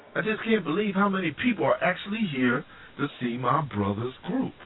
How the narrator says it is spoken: Wanda exclaimed

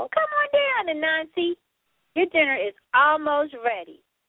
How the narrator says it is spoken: answered Turtle

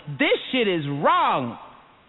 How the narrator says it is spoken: 40,000 voices all shouting

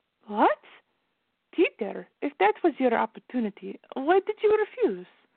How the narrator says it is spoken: Veronica asked after she gasped

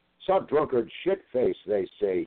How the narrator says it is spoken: he bellows

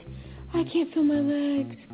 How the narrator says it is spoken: she breathed

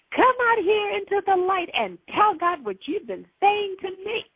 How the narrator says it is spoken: I yelled

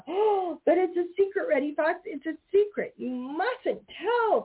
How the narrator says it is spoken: cried Peter Rabbit

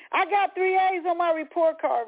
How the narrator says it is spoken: Rosetta screamed

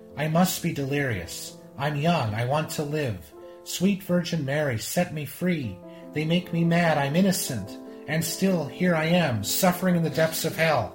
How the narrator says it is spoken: exclaimed

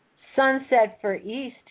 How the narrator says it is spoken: he said

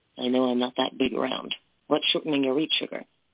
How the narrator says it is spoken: In a low voice meant only for her, he said

